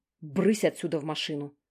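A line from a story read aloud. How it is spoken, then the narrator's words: Gruff shooing. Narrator (Russian): Шуганул он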